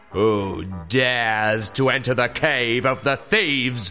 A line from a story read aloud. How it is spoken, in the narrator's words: boomed the voice of the wicked masked captain, the leader of the thieves